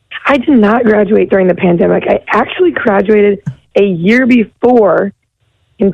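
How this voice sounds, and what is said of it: Hoarse, strained voice. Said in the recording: “You sound like you lost your voice.”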